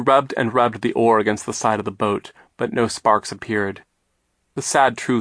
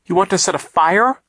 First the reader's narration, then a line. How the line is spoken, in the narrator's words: Klaus cried